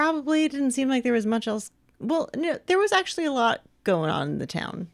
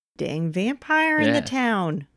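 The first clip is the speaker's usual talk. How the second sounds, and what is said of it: Put-on Midwestern American accent. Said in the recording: “Is that your Omaha, Nebraska accent?”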